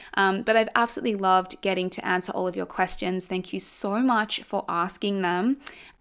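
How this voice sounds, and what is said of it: Slightly croaky voice. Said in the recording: “As you can hear, my voice is a little croaky. That was a lot of talking.”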